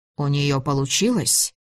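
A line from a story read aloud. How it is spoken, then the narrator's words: Plain. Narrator (Russian): спросила Ольга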